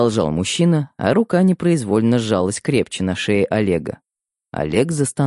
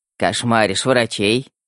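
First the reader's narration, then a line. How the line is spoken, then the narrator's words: Smirking snort. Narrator (Russian): хмыкнул Светлов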